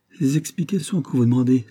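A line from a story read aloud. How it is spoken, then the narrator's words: Exclaiming. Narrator (French): s'écria Fourcy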